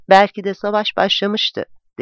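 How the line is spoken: Plain. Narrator (Turkish): dedi

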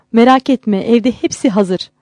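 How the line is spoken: Laughing happily. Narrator (Turkish): Didar Hanım gülerek mutlu

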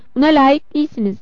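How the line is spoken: Laughing. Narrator (Turkish): dedi Betty gülerek

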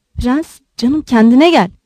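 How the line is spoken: Whispering. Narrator (Turkish): diye fısıldadı

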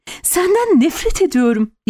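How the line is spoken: Sudden shout. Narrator (Turkish): diye haykırdı Amy aniden

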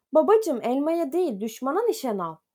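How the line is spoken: Repeated shouting. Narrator (Turkish): diye bağırıyordu boyuna

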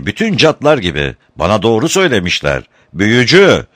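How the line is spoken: Shouting. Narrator (Turkish): diye bağırdı Muki

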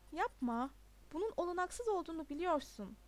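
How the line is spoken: Plain. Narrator (Turkish): dedi Todd

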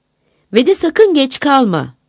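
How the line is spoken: Shouted. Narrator (Turkish): diye bağırmış

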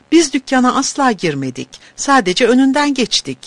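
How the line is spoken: Cried out. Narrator (Turkish): diye haykırmış

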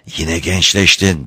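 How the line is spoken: Girl whispering with suppressed joy. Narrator (Turkish): diye fısıldadı zenci kız, bastırılmış neşesi

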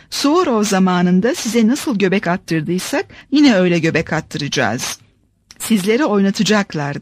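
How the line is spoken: Plain. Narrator (Turkish): dedi

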